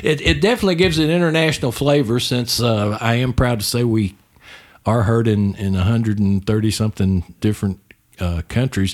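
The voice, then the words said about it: Texas accent. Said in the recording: “my Texas accent breaks in there”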